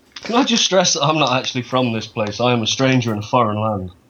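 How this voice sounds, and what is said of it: Leicestershire English accent. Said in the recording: “accent is a little different to ours ... You're from here, Leicestershire.”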